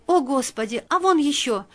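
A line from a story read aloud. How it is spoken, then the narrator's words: Girl's muffled frightened exclamation. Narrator (Russian): воскликнула девушка, прикрывая ладонью рот, словно боялась закричать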